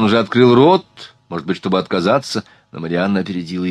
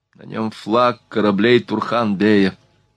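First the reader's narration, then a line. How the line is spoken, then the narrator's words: Tired reply. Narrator (Russian): устало ответила Марианна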